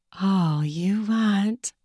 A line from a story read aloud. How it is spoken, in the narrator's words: she whispered seductively